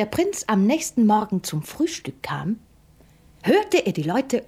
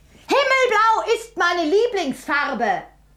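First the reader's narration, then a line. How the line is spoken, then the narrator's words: Called out. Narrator (German): rief sie, als sie den Prinzen sah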